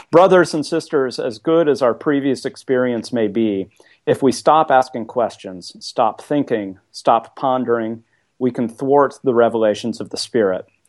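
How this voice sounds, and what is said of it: Middle American accent. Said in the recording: “In my middle American accent.”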